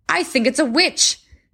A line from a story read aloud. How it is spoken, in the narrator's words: called out the men at the end